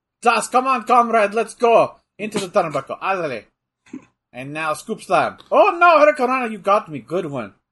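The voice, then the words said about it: Inconsistent put-on Russian accent. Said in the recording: “I'm making him sound Russian ... this accent's all over the place”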